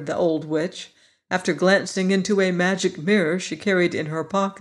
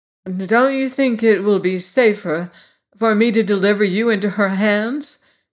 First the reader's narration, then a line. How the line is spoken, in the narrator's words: asked Ginger nervously